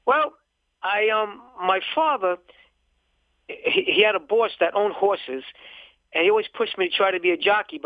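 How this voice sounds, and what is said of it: Brooklyn accent. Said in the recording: “I can tell from the accent, you're from Brooklyn ... it is a Brooklyn accent from The Sopranos”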